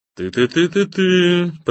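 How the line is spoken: Singsong. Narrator (Russian): пропел Боря

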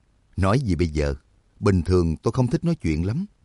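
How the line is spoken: Smiling. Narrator (Vietnamese): Trắc Mộc Cường Ba mỉm cười

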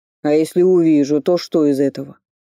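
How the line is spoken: Stubborn and angry. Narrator (Russian): Не сдавался Череп, зло посверкивая зелеными огоньками в глубине глазниц

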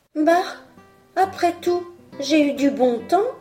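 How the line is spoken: Exclaimed. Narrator (French): s'écria-t-il

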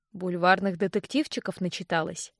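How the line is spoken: Mocking reply. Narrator (Russian): насмешливо отозвался Винс

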